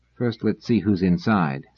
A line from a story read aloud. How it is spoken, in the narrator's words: said Selden softly